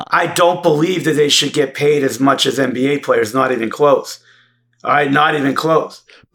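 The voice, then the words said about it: Boston working-class accent. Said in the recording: “a Boston townie ... that is your accent ... like a Boston townie dude”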